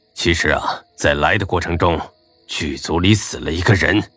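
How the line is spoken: Hushed, lowered voice. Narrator (Chinese): 压低了声音说

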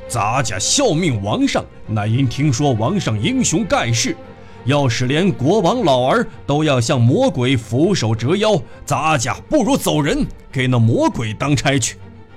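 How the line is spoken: Furious roaring man. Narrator (Chinese): 山里大汉顿时勃然大怒，高声吼道

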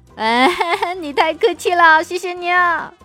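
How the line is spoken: Beaming, smiling. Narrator (Chinese): 主任满脸堆笑

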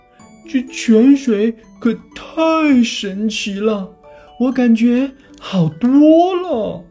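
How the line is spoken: Excited exclamation. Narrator (Chinese): 他兴奋地叫道

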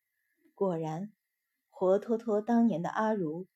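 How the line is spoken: Sighing. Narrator (Chinese): 陈贤妃…叹道

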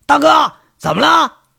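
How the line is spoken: Alarmed, yelling. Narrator (Chinese): 金刚，他心里都大惊……扯着嗓子喊

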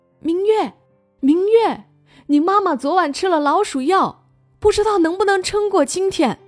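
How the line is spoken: Loud shout. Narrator (Chinese): 老妖精在警戒线之外大叫

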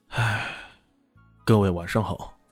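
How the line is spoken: Sighing. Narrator (Chinese): 张白浅叹了口气

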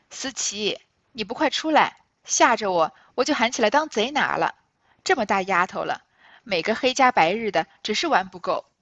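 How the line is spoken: Laughing call. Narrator (Chinese): 因便笑叫道

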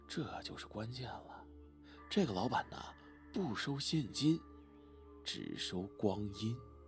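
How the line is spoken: Deliberately lowered voice. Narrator (Chinese): 阿文这时候刻意压低了声音说

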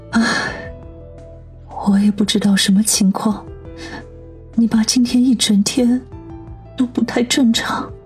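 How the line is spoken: Slow sighing. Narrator (Chinese): 兰姨悠悠地叹了口气，说道

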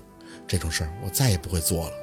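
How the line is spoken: Murmuring. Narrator (Chinese): 宝四喃喃地回应

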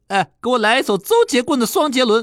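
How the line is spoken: Loud shout. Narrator (Chinese): 我大声喊了一声

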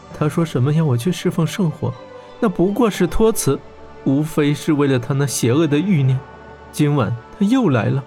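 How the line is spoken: Choked, sobbing. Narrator (Chinese): 她哽咽着说道

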